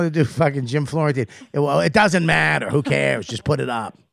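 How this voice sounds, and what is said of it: Usual voice. Nothing is said of it.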